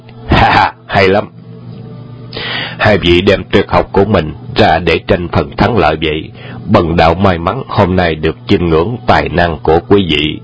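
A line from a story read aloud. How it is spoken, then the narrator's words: Laughing loudly. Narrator (Vietnamese): Trùng Dương cười lớn và nói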